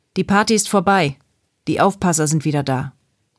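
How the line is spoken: Loud speech. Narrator (German): Dann sagte er so laut, dass auch sie es hören konnten

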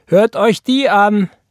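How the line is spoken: Called out. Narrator (German): rief Roy

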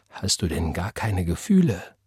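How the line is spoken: Whisper. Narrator (German): flüsterte Gabriel

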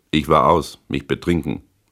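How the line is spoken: Plain. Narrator (German): sagte ich

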